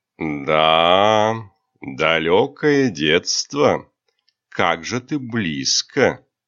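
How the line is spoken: Hateful drawl. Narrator (Russian): протянул ненавистный голос

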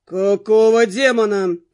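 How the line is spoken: Disoriented growl. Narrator (Russian): прорычал и без того слегка дезориентированный Джастин

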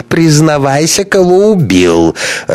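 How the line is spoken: Tipsy laughing. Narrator (Russian): рассмеялся захмелевший Ковалев

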